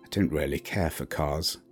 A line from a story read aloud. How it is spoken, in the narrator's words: he muttered